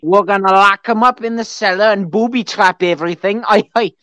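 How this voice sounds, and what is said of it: Put-on accent. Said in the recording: “I'm done with my accent now.”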